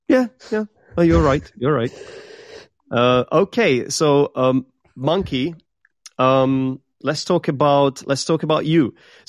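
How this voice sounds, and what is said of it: Czech accent attempting British English. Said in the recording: “I am from the Czech Republic, and what you can hear is a Czech person trying to imitate a British accent ... obviously it's not perfect ... someone thinks in the chat that I have got a German accent”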